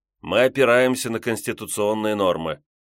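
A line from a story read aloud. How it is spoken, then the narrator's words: Mumbling. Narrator (Russian): Янаев промямлил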